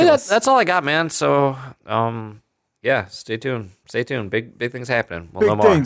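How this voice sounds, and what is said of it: Usual voice. Nothing is said of it.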